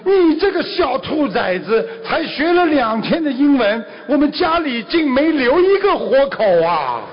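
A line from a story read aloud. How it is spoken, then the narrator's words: Old man roaring. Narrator (Chinese): 这个爷爷大吼一声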